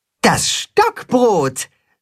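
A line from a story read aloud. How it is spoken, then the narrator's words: Called out. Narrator (German): ruft das Katzenhuhn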